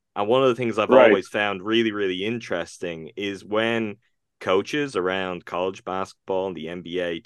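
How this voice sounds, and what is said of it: Irish accent. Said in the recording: “as you probably can pick up from my accent, I am not from the United States, I'm from Ireland.”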